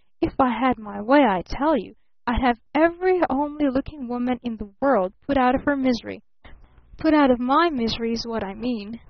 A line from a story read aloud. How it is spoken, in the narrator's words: he threatened with hissing emphasis